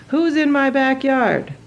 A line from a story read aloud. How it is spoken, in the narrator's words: Chow was shouting